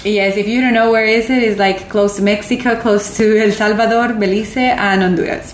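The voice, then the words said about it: Latina accent in English. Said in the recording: “I'm Latina, so ... if you couldn't tell by the accent”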